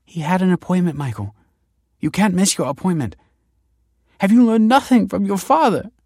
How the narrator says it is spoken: she said tearfully

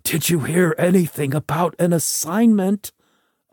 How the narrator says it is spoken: another voice cried out

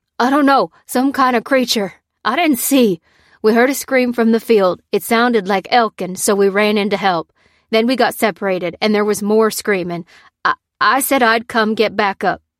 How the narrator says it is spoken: said the farmer urgently

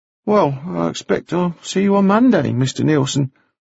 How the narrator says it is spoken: At length he sighed and said

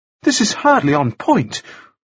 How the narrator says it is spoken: Frost said desperately

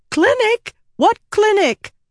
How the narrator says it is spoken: Rita realized her voice was shrill

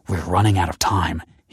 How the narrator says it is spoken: he hissed

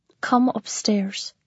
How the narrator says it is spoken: she says in a low voice

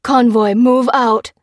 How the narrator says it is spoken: cried the general into the radio

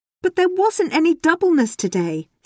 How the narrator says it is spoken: Stanley cried out

